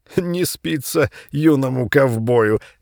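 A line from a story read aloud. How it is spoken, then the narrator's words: Loudish, smiling. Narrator (Russian): громковато сказал Володя, перестав смеяться, но еще улыбаясь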